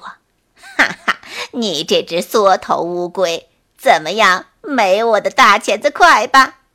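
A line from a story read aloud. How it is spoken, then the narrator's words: Hearty mocking laughter. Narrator (Chinese): 蝎子哈哈大笑着说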